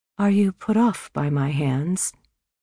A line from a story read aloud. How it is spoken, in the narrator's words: more hesitantly